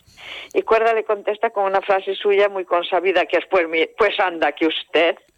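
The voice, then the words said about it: Galician Spanish accent. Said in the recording (Spanish): “tu acento te delata, Usía, eres gallega”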